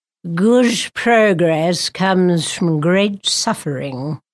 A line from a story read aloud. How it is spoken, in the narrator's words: Gerald intoned